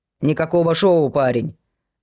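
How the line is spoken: Grumbling old man. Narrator (Russian): отозвался тут же дед с ворчанием

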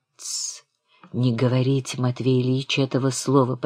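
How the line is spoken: Young man whispering. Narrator (Russian): прошептал юноша

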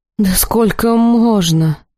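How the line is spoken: Groaning. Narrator (Russian): простонала Хиарин

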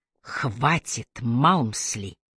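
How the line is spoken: Quiet command. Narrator (Russian): негромко приказала Трой

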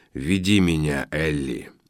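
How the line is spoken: Brave growl. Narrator (Russian): мужественно прорычал он

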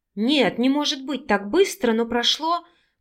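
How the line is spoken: Soft babbling. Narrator (Russian): пролепетала

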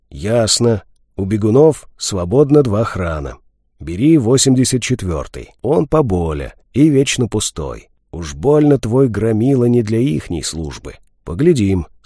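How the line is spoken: Calm. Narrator (Russian): спокойно кивнул я

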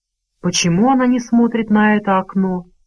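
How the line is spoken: Calm question. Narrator (Russian): спокойно спросил мистер Мрак

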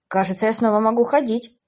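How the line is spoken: Exclaiming. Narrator (Russian): воскликнул Эйден

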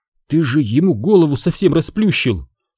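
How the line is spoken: Bewildered. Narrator (Russian): сказала она растерянно

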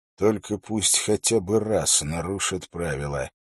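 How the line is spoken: Muttered. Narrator (Russian): пробормотал он Уиллу

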